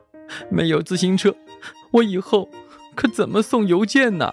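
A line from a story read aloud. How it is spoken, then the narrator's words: Sobbing. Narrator (Chinese): 邮递员抽泣着说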